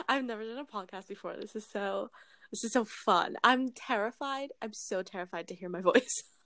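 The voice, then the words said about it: British accent. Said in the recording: “I'm British. And if I'm not around a Canadian, my British accent comes out ... It is my accent. I'm not randomly turning British. It is my voice.”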